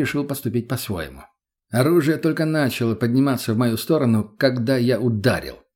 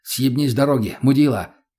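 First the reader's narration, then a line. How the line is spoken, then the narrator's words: Sharp, curt rebuke. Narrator (Russian): резко осадил его я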